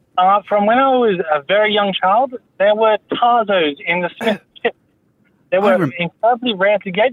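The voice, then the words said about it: British accent, Hugh Grant-like. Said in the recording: “I'm half British ... You sound very Hugh Grant.”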